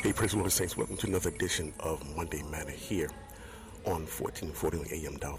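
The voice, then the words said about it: Whispering. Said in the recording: “why I'm whispering.”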